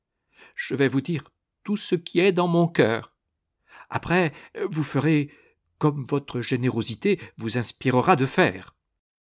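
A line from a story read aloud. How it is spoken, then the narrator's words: Trembling voice. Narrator (French): dit-elle d'une voix tremblante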